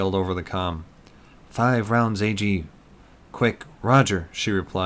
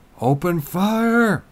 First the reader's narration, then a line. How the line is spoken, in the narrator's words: Eric yelled